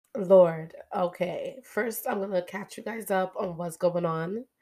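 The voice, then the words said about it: Crackly, hoarse voice. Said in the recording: “I don't know if you can hear my voice. It's a little bit crackling because I lost my voice”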